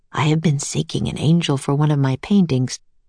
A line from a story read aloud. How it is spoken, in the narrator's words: murmured